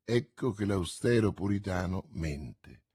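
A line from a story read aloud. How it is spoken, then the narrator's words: Murmured. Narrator (Italian): mormorò Milady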